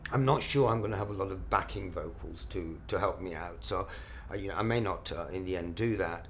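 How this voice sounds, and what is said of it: Slightly hoarse voice. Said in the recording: “as you can probably hear now, my voice is getting a little bit hoarse”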